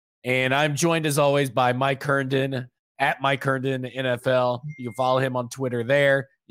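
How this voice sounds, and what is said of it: Raspy, sick-sounding voice. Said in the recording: “As you can tell from my voice, I've been smoking cigarettes like crazy, and I'm sick of it.”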